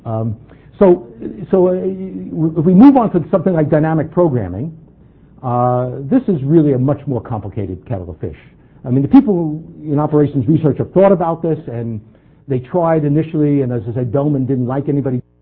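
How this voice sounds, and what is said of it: Very fast speech, New York accent. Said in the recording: “here's a good example of how fast I can talk ... my New York accent will start to come out, and I can't help it at this speed”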